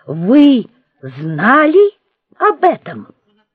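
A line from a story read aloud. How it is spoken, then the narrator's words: Accusing exclamation. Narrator (Russian): воскликнул обвиняющим тоном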